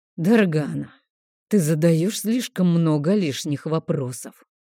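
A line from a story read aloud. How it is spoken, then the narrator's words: Exhaled. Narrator (Russian): выдохнул Крокс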